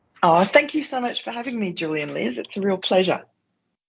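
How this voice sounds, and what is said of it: Noticeable, appealing accent. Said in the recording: “I love that accent. ... I think we would sound smarter if we had an accent”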